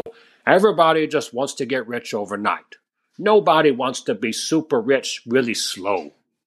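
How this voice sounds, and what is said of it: Imitates another person's voice. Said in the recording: “do my Warren Buffett voice”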